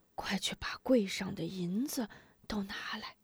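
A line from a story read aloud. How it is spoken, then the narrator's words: Quiet order. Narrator (Chinese): 老掌柜 小声吩咐小二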